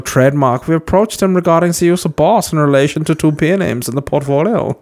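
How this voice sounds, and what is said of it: Put-on German accent. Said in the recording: “obviously I'll do this in a German accent,”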